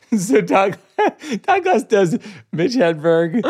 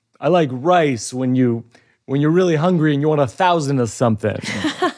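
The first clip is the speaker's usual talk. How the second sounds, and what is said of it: Rodney Dangerfield voice doing Mitch Hedberg joke. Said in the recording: “Todd Glass does Rodney Dangerfield doing Mitch Hedberg jokes”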